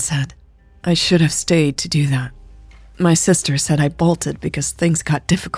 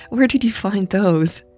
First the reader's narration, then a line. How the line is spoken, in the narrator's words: She chuckled